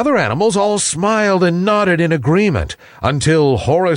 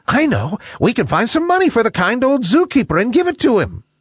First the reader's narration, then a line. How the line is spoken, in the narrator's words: the bat, Billy Big Ears, piped up